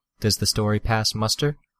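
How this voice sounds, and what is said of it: Quieter, softer voice. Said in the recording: “in a quieter voice”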